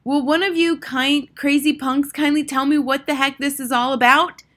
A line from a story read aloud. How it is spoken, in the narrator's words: shouted